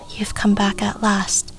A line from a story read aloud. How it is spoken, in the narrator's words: whispered